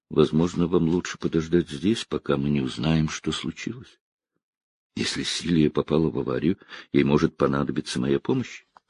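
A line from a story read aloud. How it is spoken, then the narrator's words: Muttered. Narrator (Russian): Гордон пробормотал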